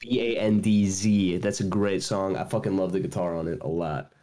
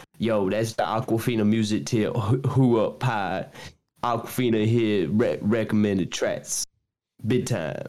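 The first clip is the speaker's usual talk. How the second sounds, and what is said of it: Put-on Kentucky accent. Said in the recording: “this is my Kentucky accent. This Asian Kentucky accent.”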